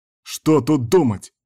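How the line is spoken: Howling. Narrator (Russian): взвыл Кастер

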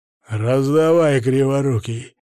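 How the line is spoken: Count hacking words out. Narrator (Russian): выхаркнул граф

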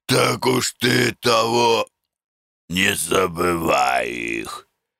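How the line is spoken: Hoarse wheezing. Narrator (Russian): хрипел Маркушка

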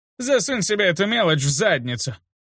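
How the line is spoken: Hoarse laughing old drunk. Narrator (Russian): Хрипло расхохотался старый алкоголик

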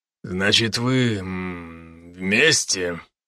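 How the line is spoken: Embarrassed mutter. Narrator (Russian): пробормотал он и, показалось, покраснел, смутившись

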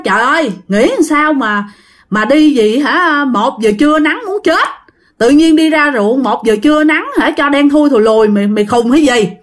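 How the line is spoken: Shouting. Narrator (Vietnamese): nó mới la lên, nó nói

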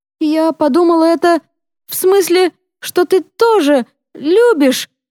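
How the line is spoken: Sobbing. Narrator (Russian): разрыдалась Йоханна

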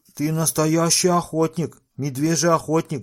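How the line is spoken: Group shouting. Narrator (Russian): закричали

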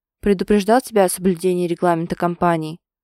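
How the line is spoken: Menacing question. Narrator (Russian): грозно спрашивает Максуд

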